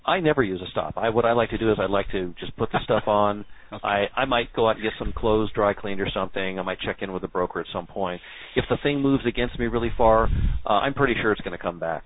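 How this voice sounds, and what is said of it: Sarcastic put-on voice. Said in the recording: “now could you answer it in your regular voice? ... I'm being sarcastic, of course. For those of you who don't know me, that's sarcasm.”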